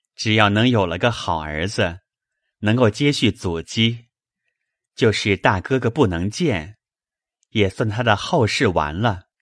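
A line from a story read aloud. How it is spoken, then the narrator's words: Laughing. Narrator (Chinese): 宝玉笑道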